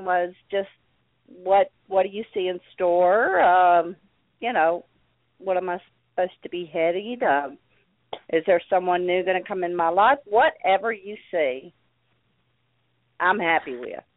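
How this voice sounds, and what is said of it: Sweet-sounding accent. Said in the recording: “I love your accent. Just love it. It's so sweet.”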